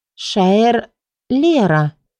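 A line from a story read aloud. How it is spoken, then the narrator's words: Drawled. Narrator (Russian): протянула она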